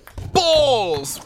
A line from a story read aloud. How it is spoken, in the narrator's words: He bellowed